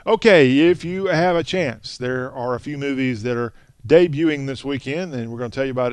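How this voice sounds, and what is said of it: Southern American accent. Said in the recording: “talk with a Southern accent.”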